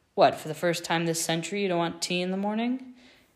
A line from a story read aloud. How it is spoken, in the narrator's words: Harry thought himself funny, and he chuckled at his own joke